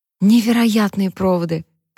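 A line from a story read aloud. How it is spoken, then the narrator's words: Whisper. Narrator (Russian): прошептала она Глории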